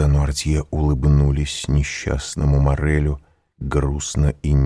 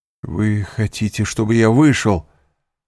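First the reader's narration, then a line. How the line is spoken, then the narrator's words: Sorrowful exclamation. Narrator (Russian): горестно воскликнул Морель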